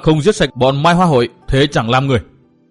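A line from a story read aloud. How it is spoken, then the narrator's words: Furious roar. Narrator (Vietnamese): cơn giận của Tư Mã Minh vẫn còn chưa nguôi, chàng gầm thét như một con hổ đói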